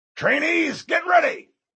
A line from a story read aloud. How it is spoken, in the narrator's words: Mendez shouted